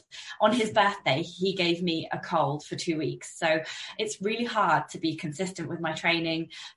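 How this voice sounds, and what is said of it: Croaky voice from a cold. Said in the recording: “I'm still a bit croaky from this 2 week cold”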